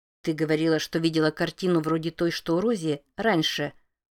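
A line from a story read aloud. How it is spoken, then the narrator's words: Grumbling mutter. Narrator (Russian): буркнула Джерт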